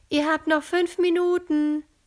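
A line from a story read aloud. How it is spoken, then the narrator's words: Called into the room. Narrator (German): ruft Iris in den Raum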